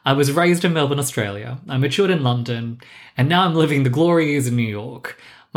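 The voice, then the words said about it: Mixed Australian-British-American accent. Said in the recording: “My accent does tend to throw people ... it's a mixture of everything I just said. But for some Australians, I don't sound Australian enough ... to British people, I sound a little familiar”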